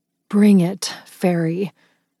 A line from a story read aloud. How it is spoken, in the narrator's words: I growled throatily